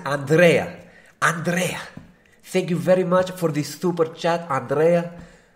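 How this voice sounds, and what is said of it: Put-on Spanish accent. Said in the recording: “I will say it with a Spanish accent”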